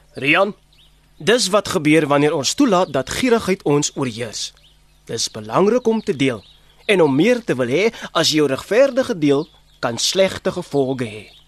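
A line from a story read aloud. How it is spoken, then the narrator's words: Stern. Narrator (Afrikaans): kyk streng na hom en sê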